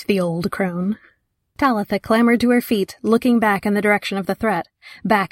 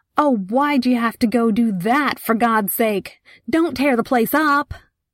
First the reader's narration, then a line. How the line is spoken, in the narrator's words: Someone, the owner of the Paintersville General Store in all likelihood, shouted